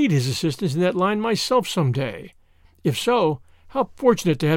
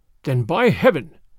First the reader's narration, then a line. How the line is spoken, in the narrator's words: snarled the Russian